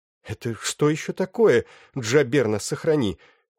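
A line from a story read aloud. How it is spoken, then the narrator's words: Breathless exhale. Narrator (Russian): выдохнула Белис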